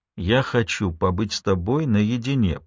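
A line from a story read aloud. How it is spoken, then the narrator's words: Quiet. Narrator (Russian): произнес Майло тихо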